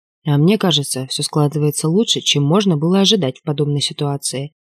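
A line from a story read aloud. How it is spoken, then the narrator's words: Quiet objection. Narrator (Russian): тихо возразил док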